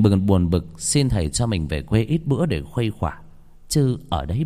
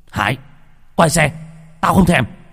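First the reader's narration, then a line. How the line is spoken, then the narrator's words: Barking at friend. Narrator (Vietnamese): Bình quát thằng bạn mình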